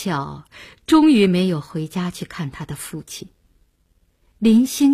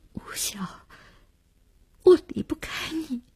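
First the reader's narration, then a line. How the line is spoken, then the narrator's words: Choked sob. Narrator (Chinese): 他只哽咽了一句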